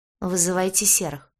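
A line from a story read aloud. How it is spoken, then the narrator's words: Muttered through teeth. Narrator (Russian): процедил Мердок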